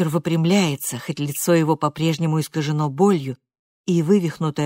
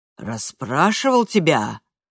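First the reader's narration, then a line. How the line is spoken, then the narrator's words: Menacing. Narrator (Russian): грозно переспрашивает Йоун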